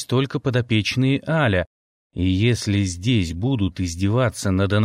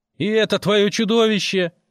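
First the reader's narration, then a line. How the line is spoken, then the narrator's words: Shouted. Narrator (Russian): крикнул кто-то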